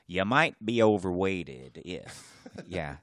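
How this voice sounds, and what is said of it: Poor Jeff Foxworthy impression. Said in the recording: “my terrible Jeff Foxworthy impression.”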